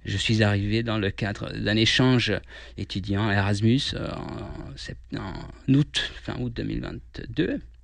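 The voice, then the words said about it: Slight Hungarian accent in French. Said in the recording (French): “On l'entend un petit peu, vous avez un petit accent. ... je suis d'origine hongroise”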